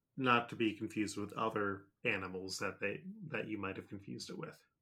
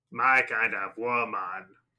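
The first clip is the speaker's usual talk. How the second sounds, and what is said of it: Muppet Animal character voice. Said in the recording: “my animal impression... From the Muppets.”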